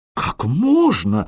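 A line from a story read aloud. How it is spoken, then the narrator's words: Frightened exclamation. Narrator (Russian): воскликнул испуганный настоятель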